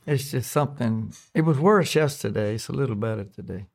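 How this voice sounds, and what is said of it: Strained, breaking hoarse voice. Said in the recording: “your voice is breaking a little bit ... My voice is messed up ... COVID throat”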